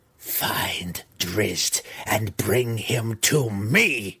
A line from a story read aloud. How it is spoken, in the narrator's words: Her voice grating as though her mouth was filled with pebbles, she growled